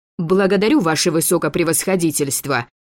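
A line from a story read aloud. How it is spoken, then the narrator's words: Loud bark. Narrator (Russian): гаркнула Кира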